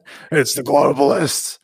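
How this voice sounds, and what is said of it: Alex Jones impression. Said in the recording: “your Alex Jones impression”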